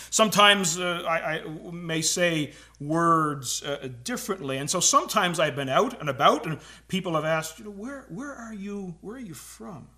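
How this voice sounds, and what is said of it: Newfoundland accent. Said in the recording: “I'm a lifelong Newfoundlander ... apparently, we talk a little bit different. Apparently, I have an accent.”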